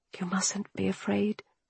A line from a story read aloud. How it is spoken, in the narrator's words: I whispered